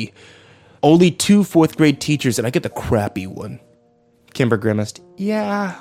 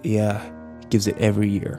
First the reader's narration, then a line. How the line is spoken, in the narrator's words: Kyle muttered